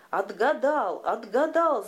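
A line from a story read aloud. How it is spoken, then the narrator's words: Ogre's wailing cry, weeping. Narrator (Russian): завопил людоед и заплакал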